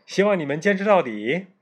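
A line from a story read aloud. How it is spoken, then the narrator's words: Smiling broadly. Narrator (Chinese): 卷毛老师露出了大大的笑容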